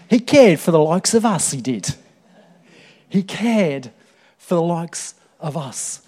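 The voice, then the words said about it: Put-on Cockney accent. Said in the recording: “I'll try and put on my Cockney accent”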